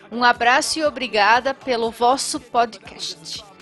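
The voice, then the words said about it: Attempted European Portuguese accent. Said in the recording (Portuguese): “tentar imitar o português de Portugal, mas não deu muito certo, não”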